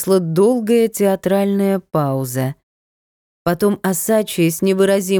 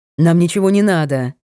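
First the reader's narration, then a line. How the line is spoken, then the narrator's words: Barked. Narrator (Russian): Рявкнул Таганцев подскочившему официанту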